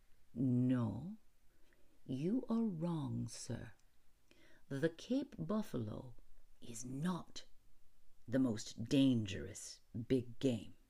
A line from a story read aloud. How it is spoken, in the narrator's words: smiling said slowly